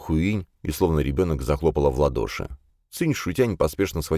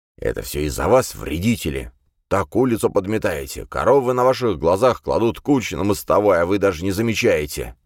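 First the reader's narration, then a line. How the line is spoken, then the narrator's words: Angry grumbling. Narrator (Russian): злобно ворчал Ван Цюше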